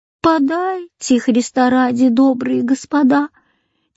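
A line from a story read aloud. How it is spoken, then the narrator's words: Sad plaintive drawl. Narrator (Russian): тянула она печальным жалобным голоском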